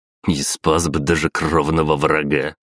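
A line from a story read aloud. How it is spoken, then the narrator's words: Snorting chuckle. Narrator (Russian): хмыкнул Агапов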